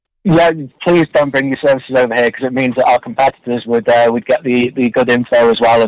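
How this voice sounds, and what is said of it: English accent. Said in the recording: “England and all that nonsense and your cool accent”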